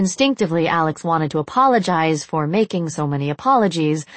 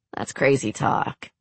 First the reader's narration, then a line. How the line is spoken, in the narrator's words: Alex chuckled